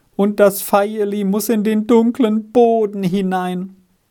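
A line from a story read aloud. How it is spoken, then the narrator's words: Heartbroken sobbing and moaning. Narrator (German): im herzzerbrechenden Jammer weinte und stöhnte in die Erde hinein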